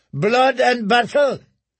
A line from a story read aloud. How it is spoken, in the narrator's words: shouted Morgan Little